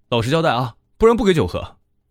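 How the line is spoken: Loud clamoring. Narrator (Chinese): 阿星嚷嚷

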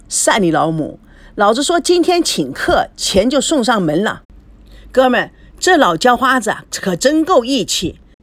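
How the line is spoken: Loud laughing. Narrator (Chinese): 大汉大声的大笑

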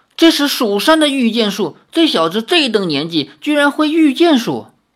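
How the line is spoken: Amazed exclamation. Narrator (Chinese): 苏宗仙惊叹不已，叫道

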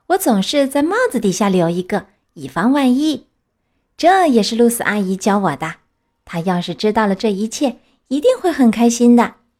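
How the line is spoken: Smiling. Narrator (Chinese): 帕丁顿笑了笑

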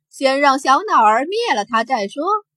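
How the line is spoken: Laughing aloud. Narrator (Chinese): 西族法师笑出声

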